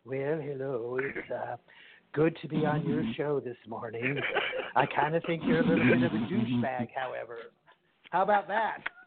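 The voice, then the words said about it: Ronald Reagan impression. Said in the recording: “I can do the Ronald Reagan. I can do Ronald Reagan. ... let me hear Ronald Reagan.”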